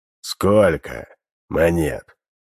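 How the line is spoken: Muffled, hollow voice. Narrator (Russian): Голос его звучал глухо

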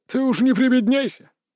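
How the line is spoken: Old man snorting. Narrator (Russian): Дед фыркнул

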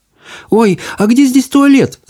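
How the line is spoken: Shout. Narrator (Russian): закричала она

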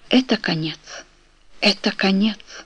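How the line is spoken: Faint inner whisper. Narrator (Russian): Какой-то слабый голос внутри ее шептал

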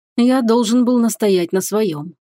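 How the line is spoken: Regretful sigh. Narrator (Russian): вздохнул любимый

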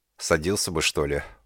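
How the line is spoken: Tired speech. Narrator (Russian): устало проговорил

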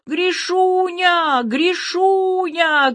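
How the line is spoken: Shout. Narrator (Russian): крикнул Тёма

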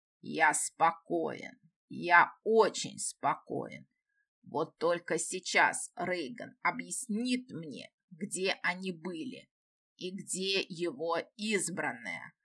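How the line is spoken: Demon's growl. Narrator (Russian): Прорычал демон

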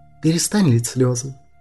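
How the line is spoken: Softer tone. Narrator (Russian): сказала Даниэль более мягким тоном

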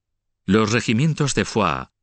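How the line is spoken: Plain. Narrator (Spanish): dijo Febo

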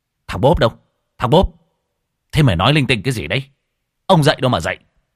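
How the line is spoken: Sudden angry shout. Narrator (Vietnamese): Anh Tài bỗng nhiên trợn mắt quát lên

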